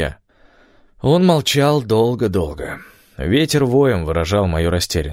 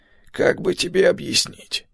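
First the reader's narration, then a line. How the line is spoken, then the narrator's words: Weary old man. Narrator (Russian): устало отвечал старик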